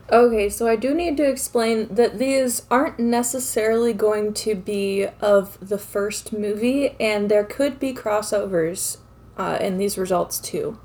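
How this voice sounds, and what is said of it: Slightly craggly, rough voice. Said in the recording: “my voice is a little craggly, because I haven't really recorded an episode in a while”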